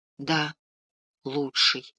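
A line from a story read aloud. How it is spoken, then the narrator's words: Quiet female voice. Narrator (Russian): тихо говорит она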